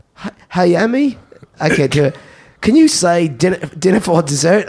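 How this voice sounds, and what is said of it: Attempted British accent sounding Australian. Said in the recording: “Can you do a British accent? ... Why do I sound Australian? ... You're Australian.”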